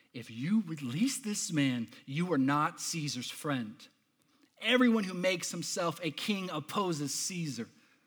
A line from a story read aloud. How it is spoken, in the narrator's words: the Jews cried out